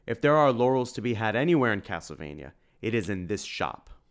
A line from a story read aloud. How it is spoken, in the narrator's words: Tim said